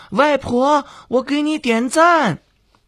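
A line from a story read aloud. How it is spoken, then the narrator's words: Excited joyful shout. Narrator (Chinese): 开心的 手舞足蹈的 高喊着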